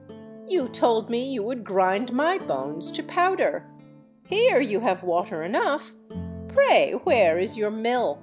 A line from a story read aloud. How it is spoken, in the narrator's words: Jack laughed at the giant and said